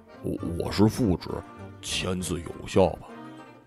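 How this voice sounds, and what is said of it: Speaking quietly. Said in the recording (Chinese): “小声”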